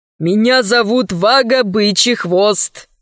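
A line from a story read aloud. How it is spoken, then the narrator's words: Mournful young man. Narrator (Russian): сообщил юноша скорбным голосом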